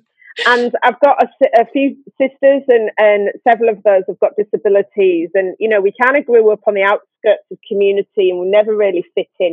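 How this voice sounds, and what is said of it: Northeast English accent. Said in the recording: “I grew up in caravans on the northeast coast of England. I've got a bit of a Game of Thrones accent”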